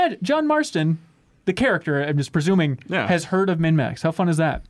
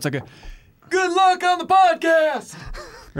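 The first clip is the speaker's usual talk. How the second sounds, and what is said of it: Half-yelled imitation of a game character. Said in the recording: “It's always like a half yell ... That was pitch perfect.”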